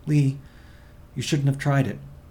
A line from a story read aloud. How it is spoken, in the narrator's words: she said anxiously